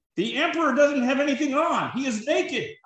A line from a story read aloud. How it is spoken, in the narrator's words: cried the child